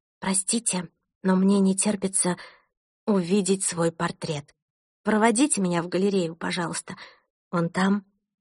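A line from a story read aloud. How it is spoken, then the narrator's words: Whisper in ear. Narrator (Russian): шепнула Томасу на ухо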